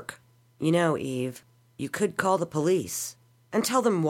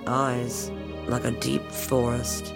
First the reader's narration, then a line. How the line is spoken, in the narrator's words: he muttered